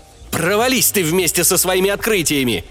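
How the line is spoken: Angry bark. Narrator (Russian): злобно рявкнул я

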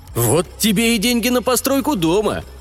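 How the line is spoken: Exclaiming. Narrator (Russian): воскликнул Лопака

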